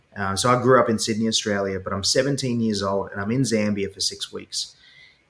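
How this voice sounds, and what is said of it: Australian accent. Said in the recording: “people are fascinated by the Aussie accent”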